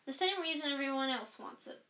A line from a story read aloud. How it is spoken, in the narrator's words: said Hermione